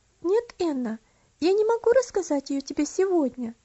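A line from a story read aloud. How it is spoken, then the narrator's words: Calm but firm. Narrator (Russian): спокойно, но твердо ответила Элси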